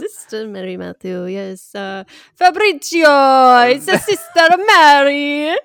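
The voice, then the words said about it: Put-on Italian accent. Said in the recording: “We love an Italian accent.”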